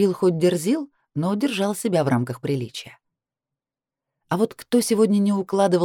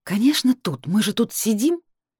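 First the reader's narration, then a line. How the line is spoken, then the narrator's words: Hiss through teeth. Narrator (Russian): сквозь зубы прошипела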